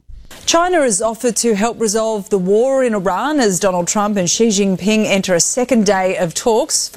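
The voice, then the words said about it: Australian accent. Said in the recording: “I do like that Australian accent.”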